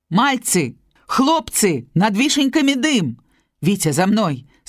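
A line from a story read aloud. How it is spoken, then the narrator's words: Alarmed shout. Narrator (Belarusian): Сполашна крыкнуў Алесь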